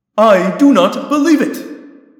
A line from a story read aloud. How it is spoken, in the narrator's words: Axe cried